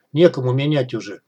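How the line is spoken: Gloomy guard speaking. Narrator (Russian): мрачно проговорил страж

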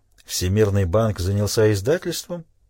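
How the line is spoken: Somewhat sarcastic question. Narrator (Russian): Несколько язвительно спросил он

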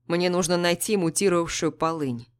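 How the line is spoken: Casual everyday tone. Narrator (Russian): говорит он будничным тоном

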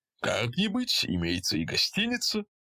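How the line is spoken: Cheerful. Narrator (Russian): весело сказал извозчик

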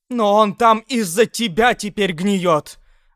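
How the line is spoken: Screaming. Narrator (Russian): вопила она

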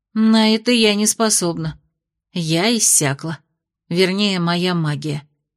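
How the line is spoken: Tired. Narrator (Russian): устало произнесла Аделин

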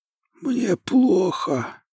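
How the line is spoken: Hoarse voice. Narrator (Russian): сказала я хриплым голосом

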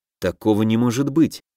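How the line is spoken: Muttering under breath. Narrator (Russian): пробормотал я себе под нос

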